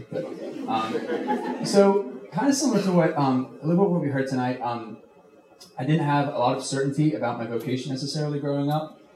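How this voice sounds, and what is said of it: British accent mixed with American. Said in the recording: “I'm originally from the UK. I'm British, but I've been here a long time now, so my accent is just like a gumbo.”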